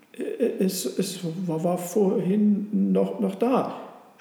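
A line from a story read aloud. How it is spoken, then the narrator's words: Confused stutter, donkey. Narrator (German): stotterte der Esel ganz verwirrt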